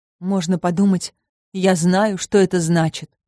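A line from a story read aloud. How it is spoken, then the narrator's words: Moaning to herself. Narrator (Russian): простонала про себя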